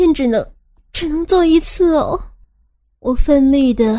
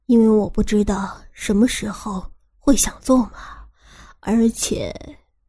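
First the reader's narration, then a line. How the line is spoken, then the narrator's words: Deliberately trailing off. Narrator (Chinese): 他刻意不说完话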